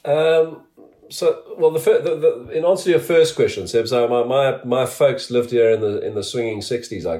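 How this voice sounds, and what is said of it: South African accent. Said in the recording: “you're a proud South African. You've got the accent to show for it.”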